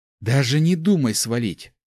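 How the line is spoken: Snarled. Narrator (Russian): рыкнула она

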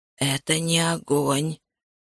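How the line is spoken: Rasping voice. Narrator (Russian): прохрипел Саммерин

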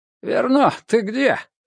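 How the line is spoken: Hoarse voice. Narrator (Russian): прозвучал хриплый голос

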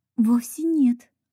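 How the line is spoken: Indignant exclamation. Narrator (Russian): возмущенно воскликнула Рут

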